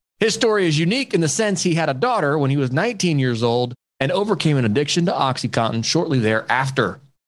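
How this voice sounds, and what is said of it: Smooth radio DJ-style voice. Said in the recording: “you got a DJ voice, bro. Like radio. I close my eyes and just like hear you on some like popular radio station, man. You got a killer voice.”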